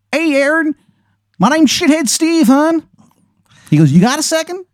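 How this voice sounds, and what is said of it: Exaggerated bad Maryland accent. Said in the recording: “the worst Maryland accent you have ever heard in your fucking life ... it's a horrible accent ... His voice sounds like an orphanage burning down on Christmas Eve”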